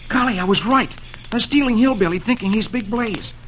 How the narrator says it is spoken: He exclaims to himself

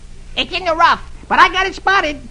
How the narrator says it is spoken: Huey exclaimed

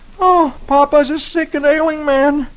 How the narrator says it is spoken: Dagwood moans

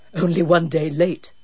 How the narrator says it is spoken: Jude chuckled

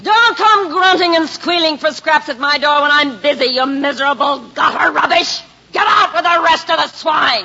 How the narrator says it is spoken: the innkeeper's wife screamed

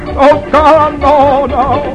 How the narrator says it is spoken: yelling

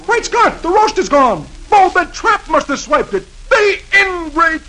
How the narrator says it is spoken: He sees the bare table and exclaims

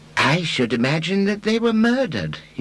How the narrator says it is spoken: he said, almost cheerfully

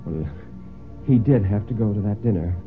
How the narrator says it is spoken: Mary said rather feebly, he thought

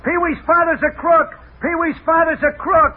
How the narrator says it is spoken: the kids used to yell at him

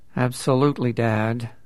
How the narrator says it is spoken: said Richard through gritted teeth

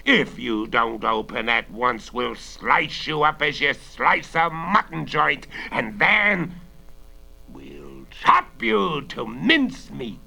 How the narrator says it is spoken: roared another voice

